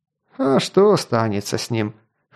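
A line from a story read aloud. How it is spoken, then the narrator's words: Snorting. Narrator (Russian): хмыкнул обозник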